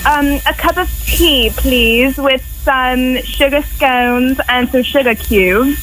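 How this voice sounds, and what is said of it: Poor put-on British accent. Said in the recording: “Can you do a British accent? ... That was horrible, huh?”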